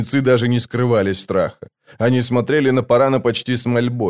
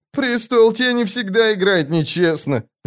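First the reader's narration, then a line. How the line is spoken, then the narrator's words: Whining. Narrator (Russian): заскулил брат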